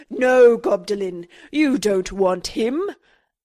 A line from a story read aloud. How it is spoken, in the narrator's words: He let out a mighty goblin roar, crying